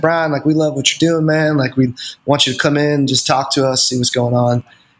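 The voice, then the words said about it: Imitated country accent. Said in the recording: “country accent”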